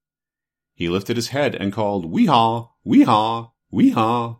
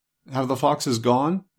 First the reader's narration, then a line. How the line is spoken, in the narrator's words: It asked in a trembling voice